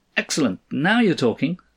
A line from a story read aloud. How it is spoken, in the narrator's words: cried Cross